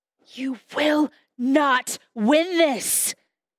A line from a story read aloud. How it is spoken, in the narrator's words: Jacob rasped, his throat raw